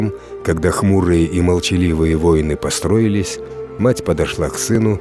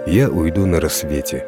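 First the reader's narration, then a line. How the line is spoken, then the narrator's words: Calm mother's reply. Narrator (Russian): спокойно ответила мать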